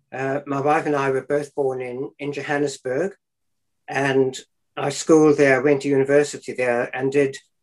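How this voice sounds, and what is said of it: South African accent. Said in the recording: “I hear an accent from you that isn't local to these shores ... I still carry some of that South African accent.”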